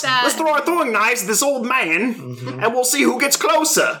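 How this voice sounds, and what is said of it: Put-on exaggerated British accent. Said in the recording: “You like my British accent? ... putting, ... Dick Van Dyke to shame.”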